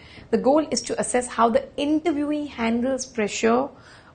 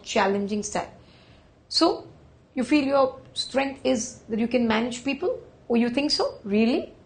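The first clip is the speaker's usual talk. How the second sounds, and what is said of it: Sarcastic, demeaning tone. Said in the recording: “being sarcastic”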